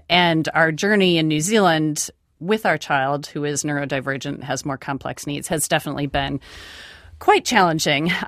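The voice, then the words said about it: American accent. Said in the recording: “you hear from my accent that we're originally from the United States”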